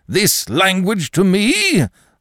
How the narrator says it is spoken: Bickersdyke did not start up and shout

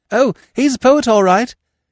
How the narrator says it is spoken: he said hastily

